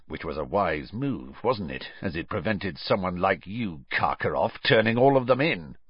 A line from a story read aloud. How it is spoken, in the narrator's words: muttered Moody